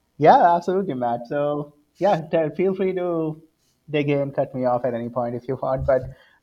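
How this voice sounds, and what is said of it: Indian English accent. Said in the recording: “as you can see from my accent, born and brought up in India”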